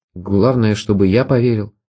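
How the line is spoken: Muttering. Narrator (Russian): пробормотал

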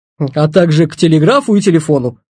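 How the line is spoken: Wry snort. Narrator (Russian): хмыкнул Петр

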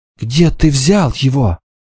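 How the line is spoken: Girl's trembling question. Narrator (Russian): Девушка дрожащим голосом спросила

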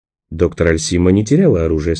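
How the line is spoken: Calm remark. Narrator (Russian): спокойно заметил Николас

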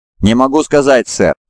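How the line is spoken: Laughing. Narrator (Russian): засмеялся Ху

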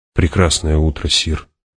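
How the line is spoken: Quiet guard. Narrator (Russian): тихо произнес охранник

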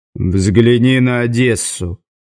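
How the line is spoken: Glum advice. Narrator (Russian): уныло посоветовал Завулон

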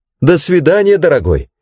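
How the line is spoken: Called out. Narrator (Russian): крикнула она

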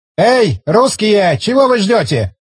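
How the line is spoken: Shouting. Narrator (Russian): крикнул он

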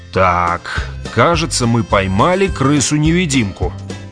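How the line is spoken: Grim pronouncement. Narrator (Russian): мрачно изрек Грегор

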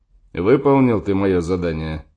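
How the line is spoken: Stern question. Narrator (Russian): строго спросил Сим-Симыч

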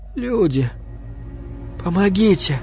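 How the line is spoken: Quiet hoarse call. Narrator (Russian): до Ганса донеслось тихое, хриплое

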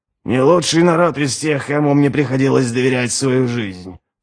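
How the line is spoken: Mumbling. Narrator (Russian): пробормотал Ральф

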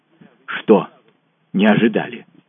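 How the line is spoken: Strained, embarrassed. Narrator (Russian): выдавил Гржебин, смущенный нашим неловким молчанием

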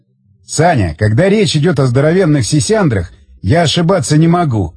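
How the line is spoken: Loud laughter. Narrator (Russian): захохотал Тигран

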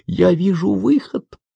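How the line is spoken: Whisper. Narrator (Russian): услышал шепот Миюки

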